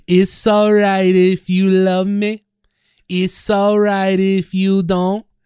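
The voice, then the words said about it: Imitates a singer's voice. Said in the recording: “That's how he sounds. He's almost like your Italian voice, almost. ... I did a great Tom Petty impersonation”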